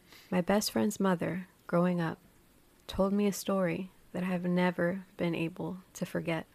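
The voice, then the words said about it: Polished radio announcer voice. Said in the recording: “I'm going to flex my radio voice.”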